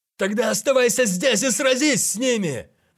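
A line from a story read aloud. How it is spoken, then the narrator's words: Shouted. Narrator (Russian): крикнул кто-то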